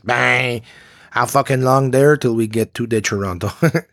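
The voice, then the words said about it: Mock Quebec French accent. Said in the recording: “He wasn't like from Quebec.”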